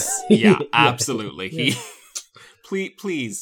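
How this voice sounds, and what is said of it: Usual voice. Nothing is said of it.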